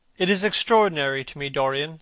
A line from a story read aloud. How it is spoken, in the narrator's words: said Hallward